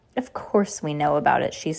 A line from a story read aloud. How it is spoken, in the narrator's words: she snarled